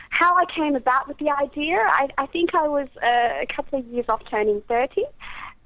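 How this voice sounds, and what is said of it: Australian accent. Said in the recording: “you have an accent ... I'm Australian”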